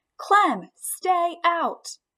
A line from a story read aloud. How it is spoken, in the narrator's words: Miranda shouted